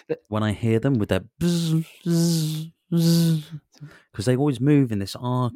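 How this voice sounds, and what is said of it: Buzzing wasp sound impression. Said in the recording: “That's a very good impression as well”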